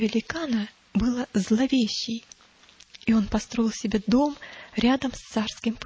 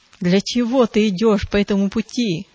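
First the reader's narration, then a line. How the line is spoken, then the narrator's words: Growling. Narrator (Russian): зарычал Зловещий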